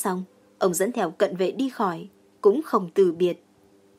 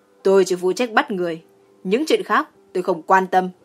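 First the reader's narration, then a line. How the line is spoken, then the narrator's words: Cold snort. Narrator (Vietnamese): Dương Phá Quân hừ một tiếng lạnh lùng, nói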